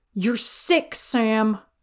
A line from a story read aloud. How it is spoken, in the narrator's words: Dean snapped over his shoulder